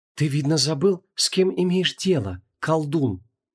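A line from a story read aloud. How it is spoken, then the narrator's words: Cold goddess reply. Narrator (Russian): холодно ответила богиня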